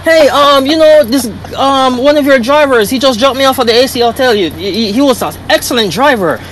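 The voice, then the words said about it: Put-on foreign accent. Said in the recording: “put on a look of foreign accent”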